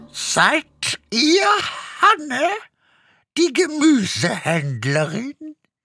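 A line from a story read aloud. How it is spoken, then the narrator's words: Croaky voice asking. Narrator (German): fragte mit krächzender Stimme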